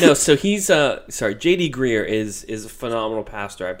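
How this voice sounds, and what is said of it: Usual voice. Nothing is said of it.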